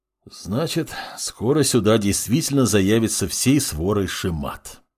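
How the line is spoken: Sighing. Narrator (Russian): вздохнул бывший следователь

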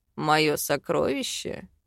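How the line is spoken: Hoarse laugh. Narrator (Russian): хрипло хохотнул мужчина

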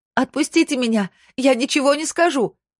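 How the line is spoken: Scream. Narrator (Russian): закричала она

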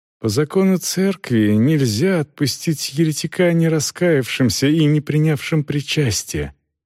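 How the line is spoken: Calm. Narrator (Russian): спокойно проговорил отец Симеон

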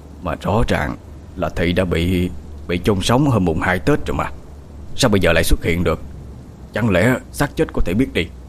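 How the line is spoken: Muttering to himself. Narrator (Vietnamese): Tam Quỷ lẩm bẩm nói với chính mình

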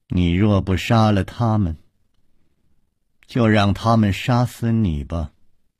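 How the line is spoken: Calm, indifferent. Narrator (Chinese): 石观音淡淡地说

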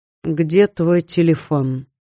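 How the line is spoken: Feigned calm question. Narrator (Russian): спокойно спросил мужчина, но было видно, что его спокойствие напускное

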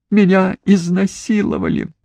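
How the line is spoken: Sobbing. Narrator (Russian): всхлипывала

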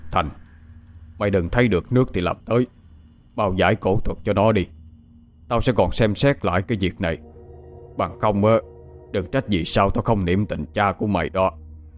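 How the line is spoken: Harsh stern voice. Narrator (Vietnamese): ông trưởng gằn giọng

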